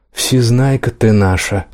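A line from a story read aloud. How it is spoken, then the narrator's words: Hissed. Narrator (Russian): зашипела Нэнс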